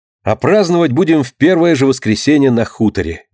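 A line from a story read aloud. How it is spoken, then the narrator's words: Plain. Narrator (Russian): говорит Марина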